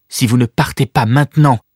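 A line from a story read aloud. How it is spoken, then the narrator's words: Firm warning. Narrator (French): prévint-elle d'une voix décidée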